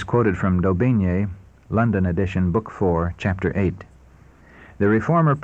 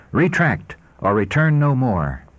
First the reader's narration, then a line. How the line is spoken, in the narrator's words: he declared in a haughty and angry tone